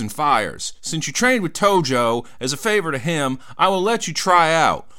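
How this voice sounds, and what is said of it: Southern accent impression of Terry Garvin. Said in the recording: “I was giving a southern accent there to Terry Garvin”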